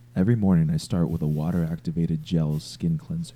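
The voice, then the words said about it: Patrick Bateman character impression. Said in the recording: “do your Patrick Bateman impression ... Do the Patrick Bateman impression. ... Fucking perfect, dude.”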